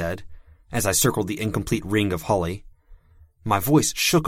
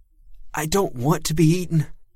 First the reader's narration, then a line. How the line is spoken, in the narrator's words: he said, and his voice shook a lot more